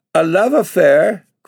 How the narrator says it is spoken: cried Bella with flaming cheeks

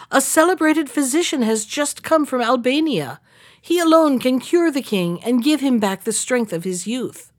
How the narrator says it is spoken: cried

